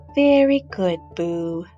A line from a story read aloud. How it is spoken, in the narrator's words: murmured Mama